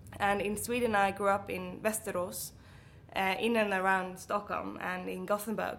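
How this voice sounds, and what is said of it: Swedish-accented English, mixed influences. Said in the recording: “my Swedish accent is a mix of all those places ... my English accent is a lovely blend of all these places”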